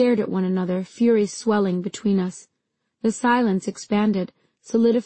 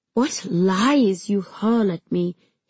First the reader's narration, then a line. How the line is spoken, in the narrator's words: he murmured